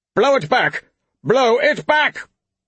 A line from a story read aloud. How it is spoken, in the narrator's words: the Thane shouted